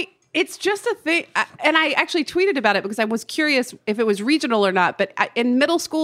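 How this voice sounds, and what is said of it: Usual voice. Nothing is said of it.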